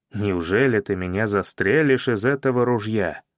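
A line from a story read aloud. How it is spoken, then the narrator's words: Calm, confident question. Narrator (Russian): спросил я спокойно, уверенный, что он так не поступит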